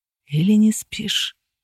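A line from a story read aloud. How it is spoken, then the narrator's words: Whispered question. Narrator (Russian): шепотом спросили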